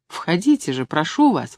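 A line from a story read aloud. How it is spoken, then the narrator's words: Exclaiming. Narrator (Russian): воскликнула я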